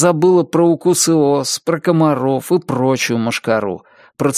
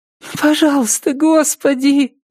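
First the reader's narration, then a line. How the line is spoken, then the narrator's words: Pleading. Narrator (Russian): взмолилась Триша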